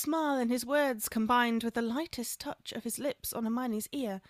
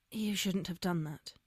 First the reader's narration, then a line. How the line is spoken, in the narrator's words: whispered